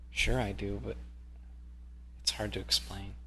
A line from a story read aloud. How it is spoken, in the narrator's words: says in a low voice